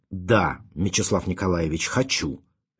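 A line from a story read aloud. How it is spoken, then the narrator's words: Sharp. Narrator (Russian): резко сказал Ванзаров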